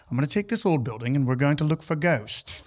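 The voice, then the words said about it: Put-on accent. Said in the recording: “really good, especially in that accent”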